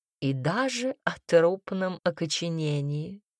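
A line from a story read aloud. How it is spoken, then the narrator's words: Purring voice. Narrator (Russian): мурлыкнула Камилла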